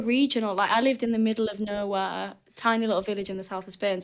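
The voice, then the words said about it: Thick northern English accent. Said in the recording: “I had a thick northern accent and you could pinpoint exactly where in England I was from ... Can't shake it off ... my accent has been the same the whole time”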